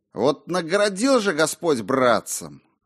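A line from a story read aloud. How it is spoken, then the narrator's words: Sigh. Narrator (Russian): вздохнул Уильям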